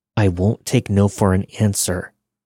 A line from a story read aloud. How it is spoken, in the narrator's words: he said through clenched teeth